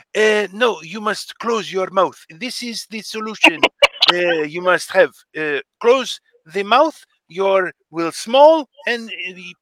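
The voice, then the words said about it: Put-on Algerian-style foreign accent. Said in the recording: “I love his accent. ... He is Algerian. ... You were giving French? Me a little Persian, a little Greek”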